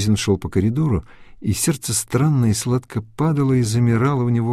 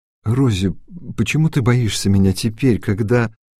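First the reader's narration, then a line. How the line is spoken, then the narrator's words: Hesitant. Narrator (Russian): Суизин неуверенно проговорил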